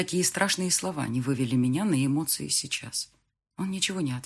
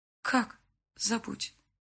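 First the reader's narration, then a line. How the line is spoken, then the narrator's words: Quiet. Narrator (Russian): произнесла я негромко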